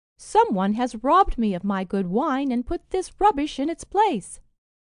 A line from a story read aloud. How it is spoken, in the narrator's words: exclaimed